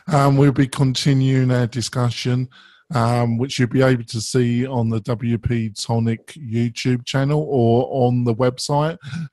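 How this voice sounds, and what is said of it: Strained, nearly lost voice. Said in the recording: “I'm almost losing my voice there”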